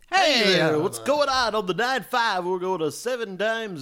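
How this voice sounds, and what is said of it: Exaggerated radio DJ voice. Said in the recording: “Radio voice to me is like, ... when I'm doing this voice”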